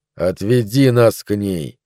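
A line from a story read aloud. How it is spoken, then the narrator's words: Quiet, insistent. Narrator (Russian): тихо и настойчиво сказал он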